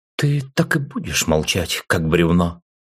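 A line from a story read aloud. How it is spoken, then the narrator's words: Indignant exclamation. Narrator (Russian): Возмущенно раздалось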